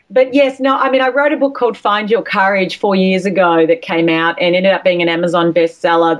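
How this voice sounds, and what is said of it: Australian accent. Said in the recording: “my accent, my Australian accent, my A's sound like I's and my R's sound like E's ... just don't let my accent mix you up”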